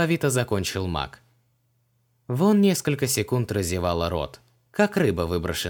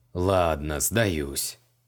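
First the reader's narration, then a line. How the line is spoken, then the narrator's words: Grumbling. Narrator (Russian): проворчал маг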